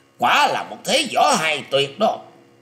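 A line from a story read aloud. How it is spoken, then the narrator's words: Loud shout. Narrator (Vietnamese): Lôi Minh Tiêu quát to lên rằng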